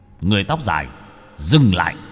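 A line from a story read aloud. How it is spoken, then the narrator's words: Shout. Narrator (Vietnamese): có tiếng quát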